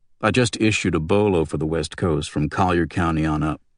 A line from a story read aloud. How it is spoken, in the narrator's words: said Riddell